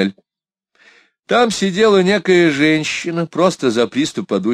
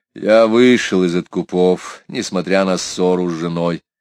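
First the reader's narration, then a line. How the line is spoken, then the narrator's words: Gloomy. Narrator (Russian): Лавуазье мрачно произнес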